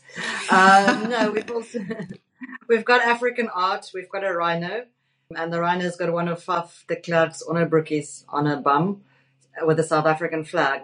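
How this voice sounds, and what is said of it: South African accent. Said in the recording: “owned by a South African? ... It's my fantastic accent”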